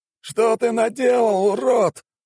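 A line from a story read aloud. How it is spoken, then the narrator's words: Wailing howl. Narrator (Russian): взвыл маг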